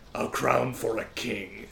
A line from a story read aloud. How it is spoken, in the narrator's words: growls at him